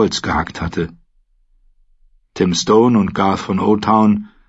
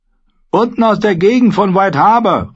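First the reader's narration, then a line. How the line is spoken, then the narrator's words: Calling out. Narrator (German): rief jemand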